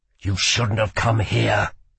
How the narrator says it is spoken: growled Kel

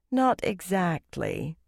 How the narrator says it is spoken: Egwene said dryly

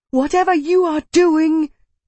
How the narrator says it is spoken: Kitai half shouted

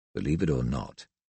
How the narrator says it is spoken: he murmured

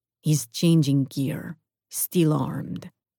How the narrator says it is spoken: Mateo murmured into my earbud

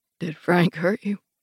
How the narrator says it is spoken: He says, his voice husky

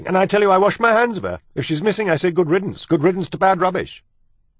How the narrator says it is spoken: Louise was shouting

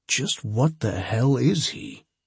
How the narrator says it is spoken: I said softly into Julie's ear

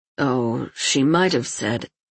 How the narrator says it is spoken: replied Erlon in a low voice

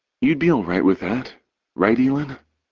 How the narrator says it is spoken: Cord asks gently

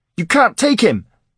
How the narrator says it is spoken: cried, yelling, in the heat of the moment

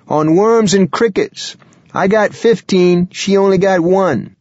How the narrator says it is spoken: he shouted

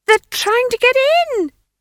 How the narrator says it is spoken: she screamed

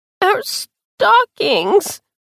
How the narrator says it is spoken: she cried, and sobbed

